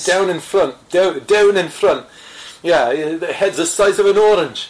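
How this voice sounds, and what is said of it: Poor put-on Scottish accent. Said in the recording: “that's a terrible Scottish accent”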